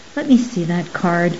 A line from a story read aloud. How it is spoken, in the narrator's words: he interrupted softly